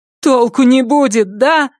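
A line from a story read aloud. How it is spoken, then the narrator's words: Moaning. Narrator (Russian): простонала Памела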